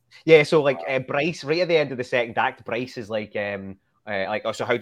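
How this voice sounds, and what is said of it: Glaswegian Scottish accent. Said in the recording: “I noticed the accent. ... Glasgow, Scotland.”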